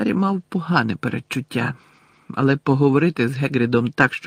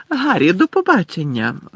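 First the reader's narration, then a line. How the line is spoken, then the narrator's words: Joyful exclamation. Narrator (Ukrainian): радісно вигукнула Ріта Скітер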